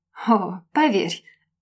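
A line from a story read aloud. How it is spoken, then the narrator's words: Throaty male laugh. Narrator (Russian): рассмеялся мужчина гортанно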